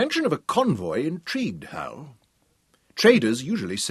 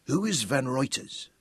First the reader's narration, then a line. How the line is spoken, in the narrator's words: Big Daniel asked quietly